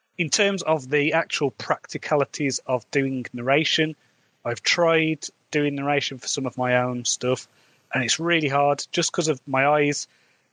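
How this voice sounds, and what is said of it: English Midlands accent. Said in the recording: “my accent, there's a lot of snobbishness in the UK about my accent. I've got a Midlands accent,”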